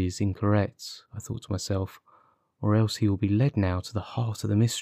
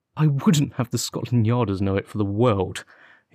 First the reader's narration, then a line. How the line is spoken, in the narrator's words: he cried